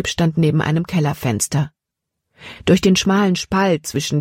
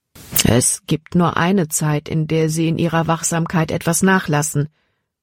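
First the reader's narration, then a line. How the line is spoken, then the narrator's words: Plain. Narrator (German): sagte Dr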